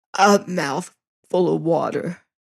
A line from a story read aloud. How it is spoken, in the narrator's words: says I hoarsely